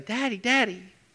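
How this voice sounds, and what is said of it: Little girl voice. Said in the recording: “a little girl voice”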